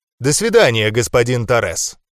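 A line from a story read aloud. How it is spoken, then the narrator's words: Calm answer. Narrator (Russian): спокойно ответил я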